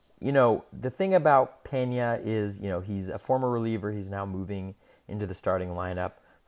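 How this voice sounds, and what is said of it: Strained, fading voice. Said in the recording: “my voice is kind of giving out a little bit as I make my way through the podcast”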